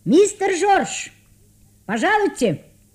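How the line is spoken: Shout from behind door. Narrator (Russian): крикнул кто-то за дверью

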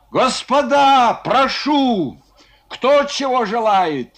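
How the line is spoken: Shouting. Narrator (Russian): кричал Кононов

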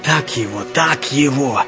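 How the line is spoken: Gloating whisper. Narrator (Russian): Высокий зашептал злорадным голосом

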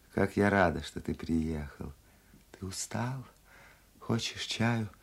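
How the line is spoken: Quiet speech. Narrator (Russian): Графиня сидела на кровати и тихо говорила

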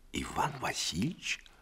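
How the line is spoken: Whisper. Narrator (Russian): шепнул он

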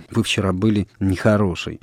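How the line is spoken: Soft. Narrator (Russian): мягко сказала Соня

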